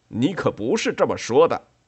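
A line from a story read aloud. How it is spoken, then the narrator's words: Roaring. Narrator (Chinese): 冠太郎吼道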